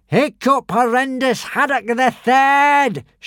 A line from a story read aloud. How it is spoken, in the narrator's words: shouted Alvin